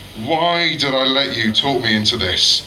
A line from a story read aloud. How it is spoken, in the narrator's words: Jaden groaned